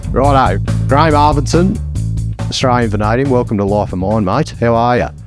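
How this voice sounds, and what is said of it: Heavy Australian accent. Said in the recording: “we've got a heavy Australian accent coming from this side”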